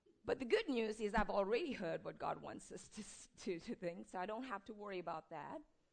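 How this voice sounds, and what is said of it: Hoarse, croaky, failing voice. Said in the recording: “my ears are plugged and my voice is going ... my croakiness here”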